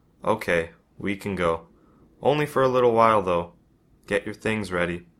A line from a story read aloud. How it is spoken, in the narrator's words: sighs, and says